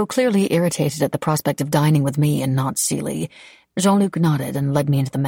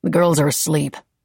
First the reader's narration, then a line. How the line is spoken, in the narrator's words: Jean-Luc grunted